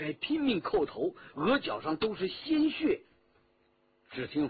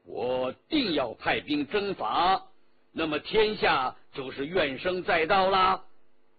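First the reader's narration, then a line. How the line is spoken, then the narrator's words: Cold. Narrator (Chinese): 皇帝冷冷地说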